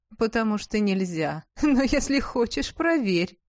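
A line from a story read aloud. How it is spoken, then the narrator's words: Laughing. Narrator (Russian): засмеялась Шарлотта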